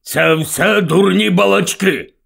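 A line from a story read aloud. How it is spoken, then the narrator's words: Grumbling uncle. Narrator (Ukrainian): буркнув дядько Вернон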